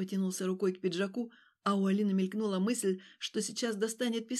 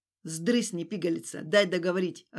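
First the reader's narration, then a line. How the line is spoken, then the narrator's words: Snapping retort. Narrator (Russian): огрызнулся он на нее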